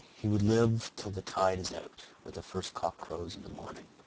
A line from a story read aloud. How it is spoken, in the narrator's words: said Katie solemnly